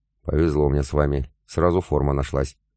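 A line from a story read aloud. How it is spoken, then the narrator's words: Sighed. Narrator (Russian): вздохнул я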